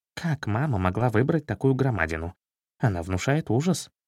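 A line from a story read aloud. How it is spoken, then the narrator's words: Frightened whisper. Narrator (Russian): Меднобров испугался и прошептал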